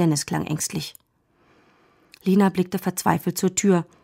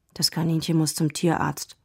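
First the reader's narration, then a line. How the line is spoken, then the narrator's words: Quiet. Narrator (German): sagte Dennis leise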